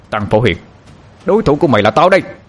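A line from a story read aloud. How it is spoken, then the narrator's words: Shout. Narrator (Vietnamese): Anh hét lên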